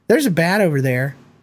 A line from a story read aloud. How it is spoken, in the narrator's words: She calmly says